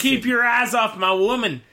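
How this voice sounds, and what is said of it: Character voice with Southern accent. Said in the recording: “southern accent all of a sudden”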